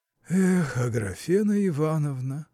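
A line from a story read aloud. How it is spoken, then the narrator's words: Lazy, sighing repetition. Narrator (Russian): повторил он лениво, вздыхая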